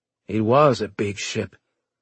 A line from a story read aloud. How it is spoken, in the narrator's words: Loco said bitterly